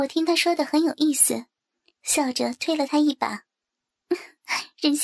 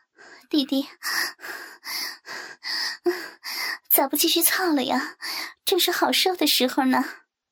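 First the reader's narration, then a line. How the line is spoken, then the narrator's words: Soft breathless question. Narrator (Chinese): 我也喘息了一下，轻轻的问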